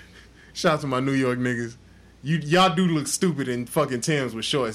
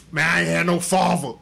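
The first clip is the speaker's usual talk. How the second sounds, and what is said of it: Put-on New York accent. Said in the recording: “If you say it in a New York accent”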